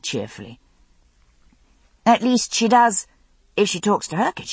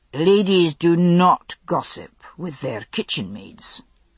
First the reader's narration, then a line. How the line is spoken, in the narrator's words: Jared said coldly